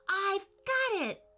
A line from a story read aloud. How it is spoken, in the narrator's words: said excitedly